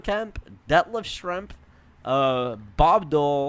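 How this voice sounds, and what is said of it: Usual voice. Nothing is said of it.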